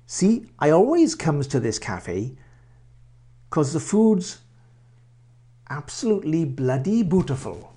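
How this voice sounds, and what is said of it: Put-on Welsh accent. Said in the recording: “That's how people speak in Wales.”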